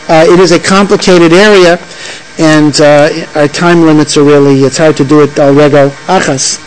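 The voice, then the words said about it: Speaking very fast. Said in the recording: “sorry I'm talking so fast.”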